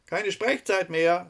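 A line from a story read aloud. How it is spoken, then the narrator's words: Young woman calling from afar. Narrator (German): rief ihr schon von der Freitreppe des Rathauses eine junge Frau zu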